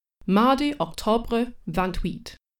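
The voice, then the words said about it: Bad put-on French accent. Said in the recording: “Please forgive the truly heinous French accent.”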